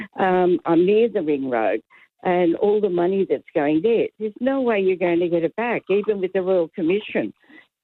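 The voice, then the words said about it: Hoarse, croaky throat. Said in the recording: “I've got a frog in my throat.”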